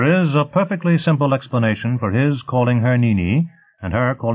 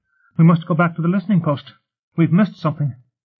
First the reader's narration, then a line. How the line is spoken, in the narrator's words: Alarmed, Ryle blurted